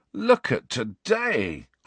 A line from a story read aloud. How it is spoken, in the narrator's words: groaned